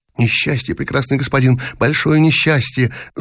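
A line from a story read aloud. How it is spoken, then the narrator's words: Muttering. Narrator (Russian): забормотала цыганка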